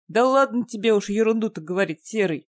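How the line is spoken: Grumbling farmer. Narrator (Russian): проворчал фермер

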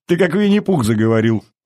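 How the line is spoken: Laughing. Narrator (Russian): рассмеялся Павел

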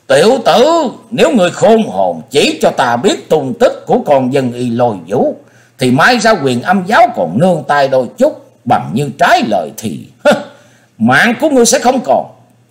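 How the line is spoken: Tiger-like roar. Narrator (Vietnamese): Nhị đầu thái tử cất tiếng hầu như hổ gầm

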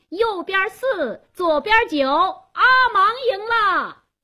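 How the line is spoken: Loud shout. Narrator (Chinese): 加斯东做公证人，他高声喊道

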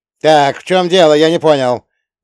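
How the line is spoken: Loud bark. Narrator (Russian): гаркнул он

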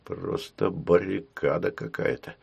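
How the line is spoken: Muttered. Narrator (Russian): пробормотал семьянин

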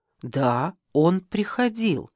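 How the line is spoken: Plain. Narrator (Russian): сказала я

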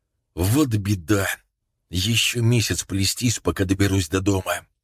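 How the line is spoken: Quiet speech. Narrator (Russian): Рандель остановился и тихо произнес

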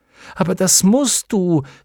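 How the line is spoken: Frightened call. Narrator (German): rief Atreo erschrocken

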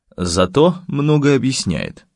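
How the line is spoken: Gloomy, owl-headed speaker. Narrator (Russian): мрачно проговорил совиная голова

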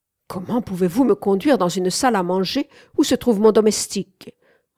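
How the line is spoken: Harsh reproach. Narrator (French): reprocha-t-elle durement

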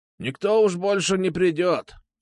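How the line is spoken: Old man's voice. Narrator (Russian): сказал старый стрелок

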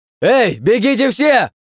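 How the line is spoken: Shouting at full strength. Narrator (Russian): закричал он из всех сил

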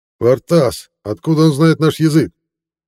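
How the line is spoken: Distant shout, wolf. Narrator (Russian): Из глубины зала крикнул волк

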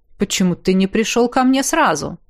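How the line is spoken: Snorting. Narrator (Russian): Я хмыкнул

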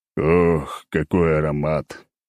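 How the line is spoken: Moan. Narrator (Russian): простонал я

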